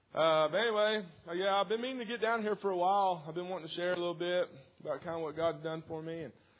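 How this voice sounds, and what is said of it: Local regional accent. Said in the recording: “I'm from around these parts. If you can't tell, yeah. So by my accent.”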